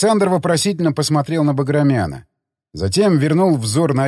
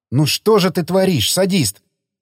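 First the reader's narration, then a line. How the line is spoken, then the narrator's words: Hissing. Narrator (Russian): зашипела Гжель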